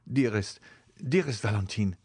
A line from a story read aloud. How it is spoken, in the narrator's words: exclaimed he